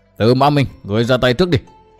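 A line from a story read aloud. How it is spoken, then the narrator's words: Loud shout. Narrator (Vietnamese): Xuyên tâm sứ giả quát lớn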